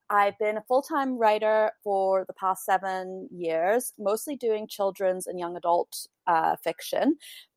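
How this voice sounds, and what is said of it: Mixed British and North American accent. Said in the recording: “I sort of have this strange transatlantic accent, which is like kind of British and kind of North American”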